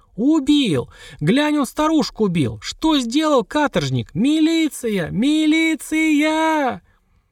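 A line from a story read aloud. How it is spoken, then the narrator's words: Woman's piercing loud wail. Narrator (Russian): Баба вопила так пронзительно, так громко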